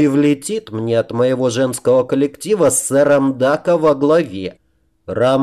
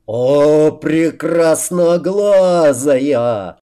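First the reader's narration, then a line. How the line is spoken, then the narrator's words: Roar. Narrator (Russian): взревел Рамус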